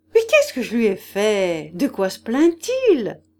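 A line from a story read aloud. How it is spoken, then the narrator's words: Laughing question. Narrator (French): questionna en riant Hippolyte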